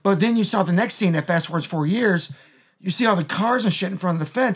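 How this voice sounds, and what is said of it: Strained, fading voice. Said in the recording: “I lose my voice.”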